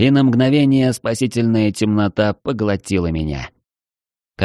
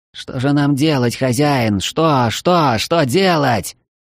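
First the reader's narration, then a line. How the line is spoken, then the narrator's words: Pained heartfelt shout. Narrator (Russian): Превозмогая неимоверную боль в раскалывающемся черепе, я в сердцах крикнул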